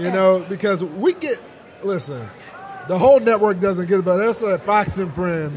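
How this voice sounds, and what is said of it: Hoarse, nearly lost voice. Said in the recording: “My voice is about gone.”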